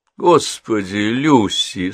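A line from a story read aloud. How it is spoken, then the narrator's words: Sleepy mumble. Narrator (Russian): сонно пробормотала Генриетта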